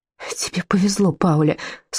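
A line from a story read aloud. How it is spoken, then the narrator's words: Tearful. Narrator (Russian): сквозь слезы выговорила она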